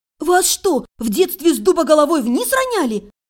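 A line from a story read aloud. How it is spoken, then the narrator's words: Near-yelling. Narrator (Russian): Едва не завопила она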